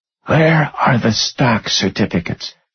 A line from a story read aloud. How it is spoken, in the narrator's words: whispered